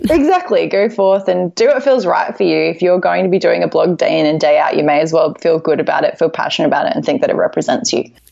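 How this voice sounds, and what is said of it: Australian accent. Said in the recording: “accent for a little bit... Australian accents are the best”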